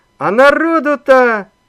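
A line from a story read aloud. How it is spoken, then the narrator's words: Yelling. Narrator (Russian): заорал Иван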